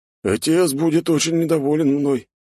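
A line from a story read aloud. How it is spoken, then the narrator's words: Sad, panicky exhale. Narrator (Russian): печально выдохнул он, пытаясь справиться с паникой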